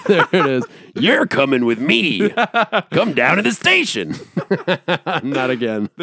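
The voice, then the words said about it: Crazy cop character voice. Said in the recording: “crazy cop... do the voice”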